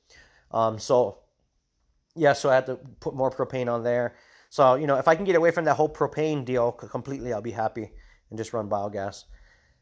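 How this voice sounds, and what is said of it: Tired-sounding voice. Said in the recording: “I don't know if you guys can tell in my voice, I'm tired.”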